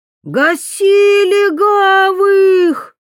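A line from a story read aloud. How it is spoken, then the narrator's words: Shrill yelling voice. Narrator (Russian): заорал визгливый голос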